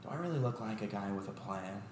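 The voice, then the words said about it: Joker character voice impression. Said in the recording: “your impressions are actually really good. Have you heard his Joker from Dark Knight? ... That's great. That's a great impression.”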